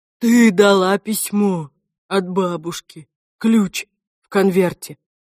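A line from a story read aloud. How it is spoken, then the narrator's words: Strained choked voice. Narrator (Russian): сказал сдавленным голосом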